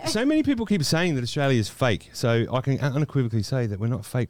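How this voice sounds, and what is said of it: Australian accent. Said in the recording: “what's that accent? ... He's not even Australian ... Is he Australian? ... I'm from Australia.”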